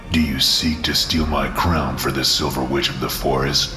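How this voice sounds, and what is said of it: Deep baritone character voice. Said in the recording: “in a deep baritone voice which rattled my eardrums”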